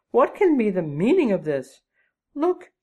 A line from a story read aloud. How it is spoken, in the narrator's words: she cried